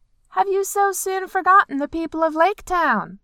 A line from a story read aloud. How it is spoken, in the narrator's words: He yelled